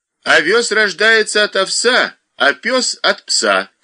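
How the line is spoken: Student shouting. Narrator (Russian): крикнул тот из студентов

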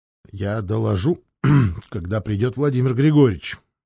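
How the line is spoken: Strangled voice. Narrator (Russian): сдавленным голосом ответил он

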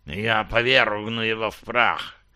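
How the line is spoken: Hissing. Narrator (Russian): прошипел ангмарец

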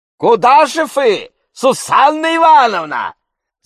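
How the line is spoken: Gentleman shouting after her. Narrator (Russian): закричал ей вслед господин Радч

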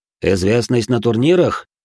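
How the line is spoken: Snort, indifferent agreement. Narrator (Russian): Я хмыкнул, равнодушно согласился

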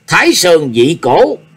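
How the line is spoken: Shouted. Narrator (Vietnamese): Nhạc Chi Dương quát

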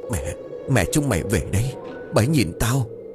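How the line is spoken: Trembling whisper. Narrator (Vietnamese): Lão Tình run rẩy giọng thì thào

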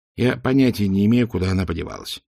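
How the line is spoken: Tired. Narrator (Russian): устало произнес Ринсвинд

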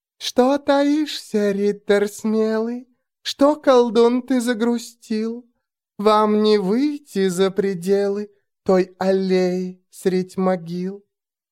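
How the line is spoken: Quiet nasty giggling. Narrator (Russian): Гаденько и тихонечко хихикая, она

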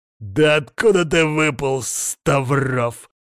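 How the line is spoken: Growl. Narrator (Russian): рычал Константин

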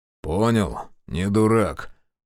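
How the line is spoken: Grumbled. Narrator (Russian): проворчал Жигалов

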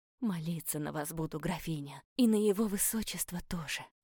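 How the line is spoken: Woman whispering. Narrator (Russian): зашептала женщина

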